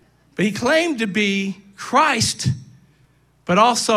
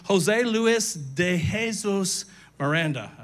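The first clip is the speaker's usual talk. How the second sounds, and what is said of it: Put-on Spanish accent. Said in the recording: “I said that in my best Spanish accent.”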